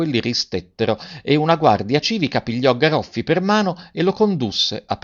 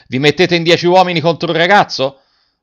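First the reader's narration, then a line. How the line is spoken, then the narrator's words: Shouting. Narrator (Italian): Garrone gridando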